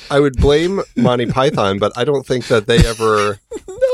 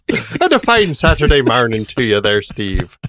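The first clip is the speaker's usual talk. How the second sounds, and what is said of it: Bad put-on Irish accent. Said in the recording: “go Irish or Scottish or something. It's like I turned into a leprechaun ... I'll go Irish, I'll go with this bad accent.”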